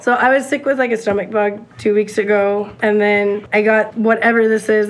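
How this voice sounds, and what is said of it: Hoarse, low, sick-sounding voice. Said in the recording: “I sound like a dying seal ... Your voice is lower than mine.”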